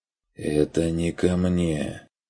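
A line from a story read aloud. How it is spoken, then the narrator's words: Barely audible objection. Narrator (Russian): возразил пленный едва слышно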